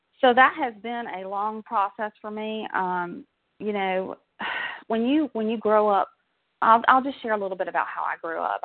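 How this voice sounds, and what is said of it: Southern American accent. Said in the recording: “I'm a Southern girl, as you can probably tell from my accent.”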